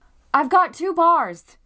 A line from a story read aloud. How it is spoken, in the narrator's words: I shouted